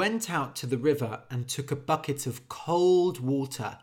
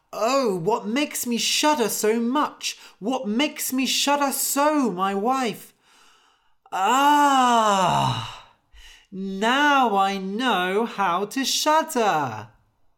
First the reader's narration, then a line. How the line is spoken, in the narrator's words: Anders woke up and cried